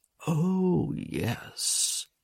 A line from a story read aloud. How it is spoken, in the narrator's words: he murmured